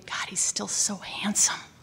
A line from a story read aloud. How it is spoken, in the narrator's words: whispered to me